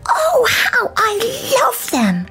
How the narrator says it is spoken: exclaimed

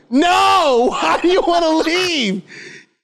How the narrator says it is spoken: yelled

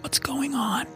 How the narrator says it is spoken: he whispered

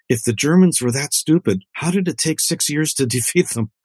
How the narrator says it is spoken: leaned over to me in the theater and she whispered to me

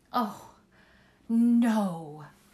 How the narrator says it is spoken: said breathlessly

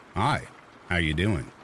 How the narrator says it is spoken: calmly just said

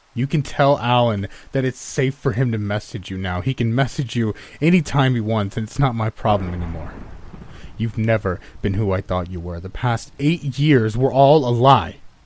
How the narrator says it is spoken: I shout

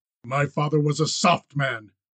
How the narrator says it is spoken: Miles said harshly

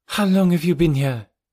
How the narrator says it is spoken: she cried

